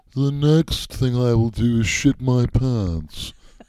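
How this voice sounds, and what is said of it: Imitates another person's voice. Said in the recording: “Alfred Hitchcock ... That was my terrible impression”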